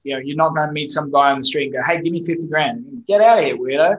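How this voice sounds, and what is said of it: Non-American accent with a twang. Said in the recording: “me with my funny accent ... I work with Americans a lot ... they're used to that special twang”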